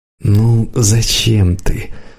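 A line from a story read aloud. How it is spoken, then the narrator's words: Weary. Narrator (Russian): устало сказал Славка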